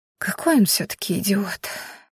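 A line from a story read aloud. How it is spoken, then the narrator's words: Girl whispering softly. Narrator (Russian): тихо прошептала девушка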